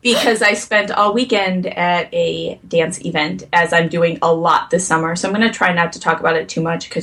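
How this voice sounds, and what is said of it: Croaky, hoarse, tired voice. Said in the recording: “I am very underslept right now, so I'm a little bit I'm a little bit croaky and hoarse ... I sound like a frog and a horse”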